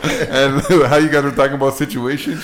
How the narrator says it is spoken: she laughed after

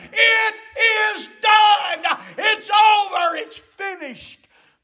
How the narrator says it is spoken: that cry of victory shouted

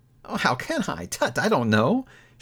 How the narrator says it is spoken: she added in that same breath, laughing

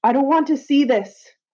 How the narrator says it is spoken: shouted

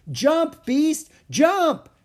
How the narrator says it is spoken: Annie shouted

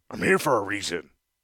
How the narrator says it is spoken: Tongarth said gruffly

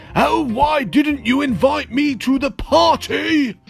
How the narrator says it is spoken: thundered

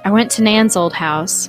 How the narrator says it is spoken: said

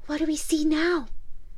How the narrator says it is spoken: in the awful darkness to whisper

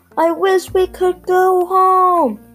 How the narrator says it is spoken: he shouted

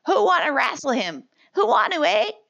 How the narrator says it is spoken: two boys cried

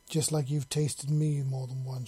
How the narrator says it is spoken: she growled in his head

